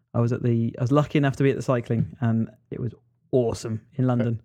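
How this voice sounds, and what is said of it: Slightly deep, strained voice. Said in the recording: “my voice is a little bit deeper right now, where it's still a bit strained”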